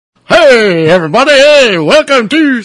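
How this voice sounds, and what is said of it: Radio DJ announcer voice. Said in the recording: “making fun of my DJ voice, so I'm doing a DJ voice”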